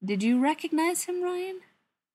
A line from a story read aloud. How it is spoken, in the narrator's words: asked, keeping his voice light, even though a sense of foreboding was beginning to eat at his stomach